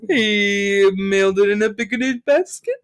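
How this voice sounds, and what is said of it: Cartoon bear character voice. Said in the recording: “Pretty good Yogi Bear impression.”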